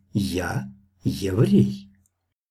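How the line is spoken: Quiet, special intonation. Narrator (Russian): Захарьин тихо, с особой интонацией ответил

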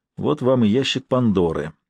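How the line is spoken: Sighing. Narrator (Russian): вздохнул Норман

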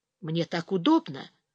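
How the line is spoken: Whispered. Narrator (Russian): тоже прошептал Ярослав

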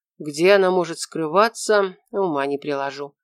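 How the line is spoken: Sighing. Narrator (Russian): вздохнул Шура

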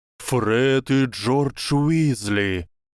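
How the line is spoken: Thundered. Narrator (Russian): прогремел глаз силы

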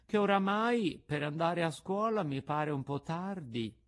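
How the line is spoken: Puppet's low whimper. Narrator (Italian): mugolò il burattino a mezza voce

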